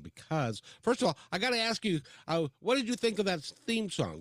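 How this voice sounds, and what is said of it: Polished professional radio voice. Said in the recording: “you have a great radio voice, by the way. I mean, you're just like pro.”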